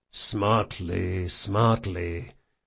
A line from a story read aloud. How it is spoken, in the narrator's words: the big man muttered to himself